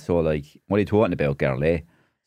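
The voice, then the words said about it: Deep Waterford Irish accent. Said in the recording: “So kind of a deep Waterford accent there, although I don't have the Waterford accent now.”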